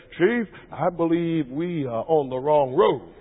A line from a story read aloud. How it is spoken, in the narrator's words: spoke up rather softly and he said